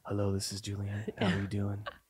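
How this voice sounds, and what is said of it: Put-on sexy voice. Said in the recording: “My sexy voice.”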